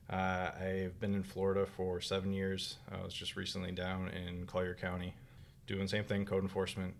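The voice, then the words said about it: Minnesota accent. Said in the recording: “originally I'm from Minnesota. I'm sure you can tell by the accent.”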